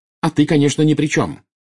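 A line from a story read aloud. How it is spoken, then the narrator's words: Angry shout. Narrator (Russian): гневно выкрикнула Белатриса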